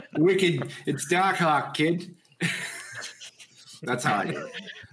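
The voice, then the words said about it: Boston accent. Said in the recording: “I'm from Boston ... I would still say that in the Boston accent.”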